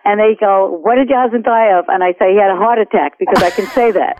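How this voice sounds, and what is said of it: Queens, New York accent. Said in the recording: “you get a Queensy kind of accent ... I sound a little bit, I don't know, kind of low class”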